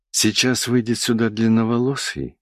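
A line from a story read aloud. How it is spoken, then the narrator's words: Whispering. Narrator (Russian): зашептал Михайло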